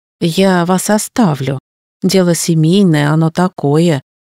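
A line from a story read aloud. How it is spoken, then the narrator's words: Sighing. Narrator (Russian): вздохнула Кристина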